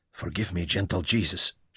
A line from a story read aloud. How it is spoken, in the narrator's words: prayed